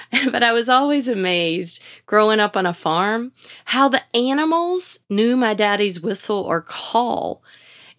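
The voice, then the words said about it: Southern American accent. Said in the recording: “I know you can tell I've got a southern accent”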